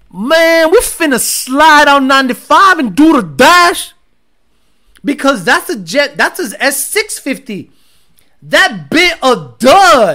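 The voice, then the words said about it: Put-on Black American accent. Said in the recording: “That's my black guy accent.”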